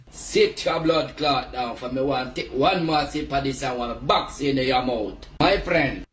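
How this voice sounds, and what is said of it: Put-on Jamaican accent. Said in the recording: “That's got to be Jamaica, right? ... The Jamaican accents, when they get going, impossible.”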